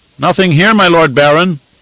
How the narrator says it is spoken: he shouted back

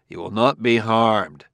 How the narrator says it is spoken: said Bailey coldly

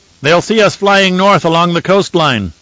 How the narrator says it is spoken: Leto shouted back to Jessica

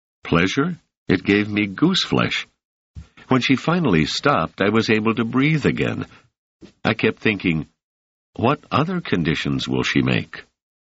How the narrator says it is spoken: Doris laughed

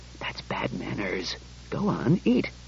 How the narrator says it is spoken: mumbled

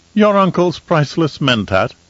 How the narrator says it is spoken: de Vries said in a carefree tone

